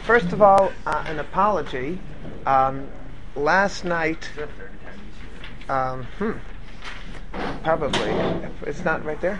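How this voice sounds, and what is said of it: Weak voice. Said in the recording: “My voice is a little bit weak”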